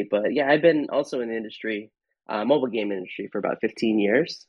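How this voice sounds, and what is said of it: Rough, snarly congested voice. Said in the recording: “my voice is a little snarly. I got a little something.”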